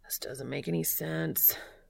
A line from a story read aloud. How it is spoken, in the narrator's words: he moans to himself